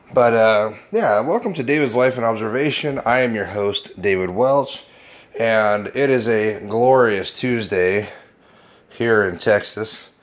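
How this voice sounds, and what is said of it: Gravelly, under-the-weather voice. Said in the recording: “I do sound a little under the weather and my voice is a little gravelly, at least more gravelly than it is usually”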